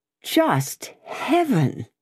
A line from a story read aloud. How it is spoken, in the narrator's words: exclaimed Darnay